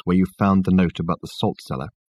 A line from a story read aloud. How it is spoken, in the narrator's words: he asked Richard in a low voice